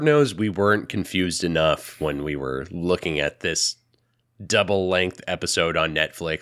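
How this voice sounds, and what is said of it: Sick-sounding voice. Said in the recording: “you can tell by my voice I'm not feeling 100% ... Sick. Awful. ... Not like the person I usually talk to.”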